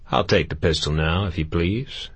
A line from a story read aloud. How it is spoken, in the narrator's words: Caleb said in a pleasant, normal voice